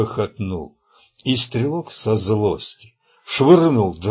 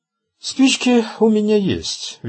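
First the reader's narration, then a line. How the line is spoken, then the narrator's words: Cheerful. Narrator (Russian): весело проговорил человек в черном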